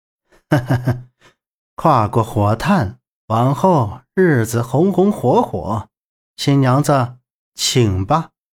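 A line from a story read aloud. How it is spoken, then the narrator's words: Laughing. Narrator (Chinese): 苍小木笑道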